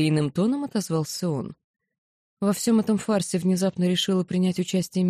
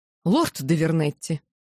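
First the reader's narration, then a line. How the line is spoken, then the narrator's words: Exclaiming. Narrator (Russian): воскликнула я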